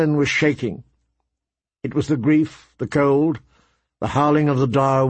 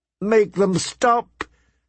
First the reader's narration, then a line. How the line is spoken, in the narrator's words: she cried